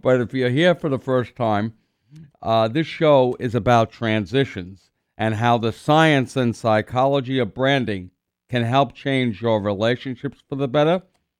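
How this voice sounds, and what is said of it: Congested voice from a cold. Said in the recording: “you can hear in my voice, I still have that cold.”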